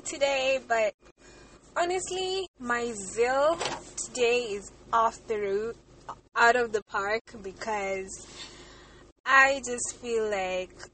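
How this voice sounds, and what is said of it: Raspy, hoarse voice. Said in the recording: “Forgive my voice. It's a bit raspy”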